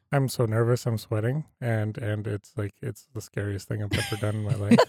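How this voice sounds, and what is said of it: Sarcastic, exaggerated nervousness. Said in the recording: “I feel like you might be being sarcastic”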